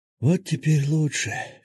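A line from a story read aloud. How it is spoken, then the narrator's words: Deep contented sigh. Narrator (Russian): Феникс глубоко и с наслаждением вздохнул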